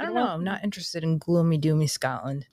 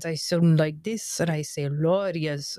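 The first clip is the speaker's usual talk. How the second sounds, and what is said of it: Put-on Scottish accent. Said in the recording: “If I've got a Scottish accent”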